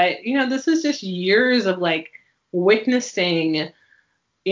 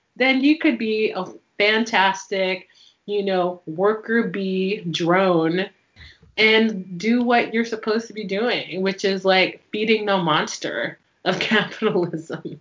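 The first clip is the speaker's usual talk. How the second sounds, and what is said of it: Sarcastic tone. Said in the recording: “I'm like totally like being sarcastic and truthful at the same time”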